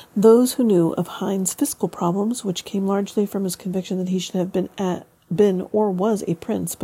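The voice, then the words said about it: Froggy, hoarse reading voice. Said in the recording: “My voice is fine. Then I start to do this and it gets all froggy.”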